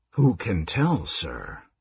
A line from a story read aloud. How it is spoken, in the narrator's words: Raistlin said in a low voice